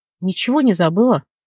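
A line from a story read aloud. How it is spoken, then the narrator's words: Angry question. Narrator (Russian): сердито спросил рослик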